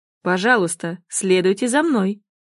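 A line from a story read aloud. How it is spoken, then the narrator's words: Butler's dry tone. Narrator (Russian): сухо произносит дворецкий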